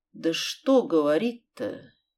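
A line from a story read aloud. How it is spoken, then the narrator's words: Uncertain drawl, bereaved mother. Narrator (Russian): Неуверенно протянула мать убитой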